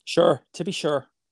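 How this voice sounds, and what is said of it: Put-on Irish accent. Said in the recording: “And so is your Irish accent.”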